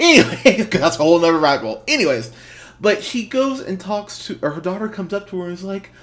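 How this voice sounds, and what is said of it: Usual voice. Nothing is said of it.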